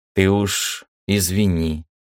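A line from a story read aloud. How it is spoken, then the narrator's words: Smirking. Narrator (Russian): ухмыльнулся Виктор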